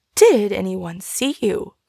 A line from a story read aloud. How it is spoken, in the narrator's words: cried Fanny